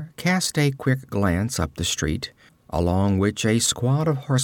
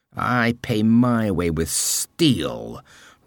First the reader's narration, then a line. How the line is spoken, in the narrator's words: roared the man in armor